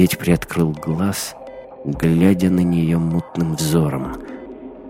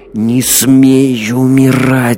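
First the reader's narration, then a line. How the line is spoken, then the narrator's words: Squirrel hissing. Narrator (Russian): зашипела белка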